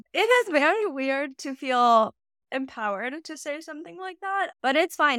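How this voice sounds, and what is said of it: Speaks with vocal fry. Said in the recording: “voice is like nails on a chalkboard ... I can diminish the vocal fry a little bit if I make an effort”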